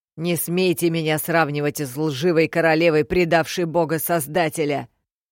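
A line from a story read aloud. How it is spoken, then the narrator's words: Angry bark. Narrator (Russian): Рявкнула Милира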